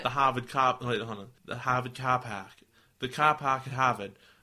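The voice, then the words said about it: Attempted Boston accent. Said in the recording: “I can't do a Boston accent. it's tough.”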